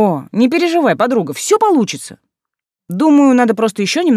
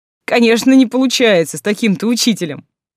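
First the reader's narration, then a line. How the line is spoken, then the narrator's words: Chuckling. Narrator (Russian): хохотнул Деймос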